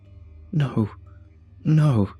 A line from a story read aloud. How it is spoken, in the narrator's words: I sobbed